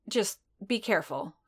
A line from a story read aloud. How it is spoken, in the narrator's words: Fennec grumbled